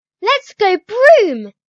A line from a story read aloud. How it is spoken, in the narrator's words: She shouted